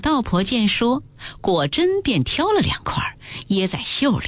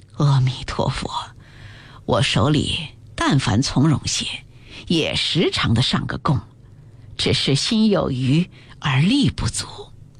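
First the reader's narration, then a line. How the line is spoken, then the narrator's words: Sighing. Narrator (Chinese): 赵姨娘叹气道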